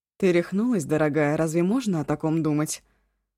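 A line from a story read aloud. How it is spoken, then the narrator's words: Grumbling. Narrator (Russian): проворчала Ашун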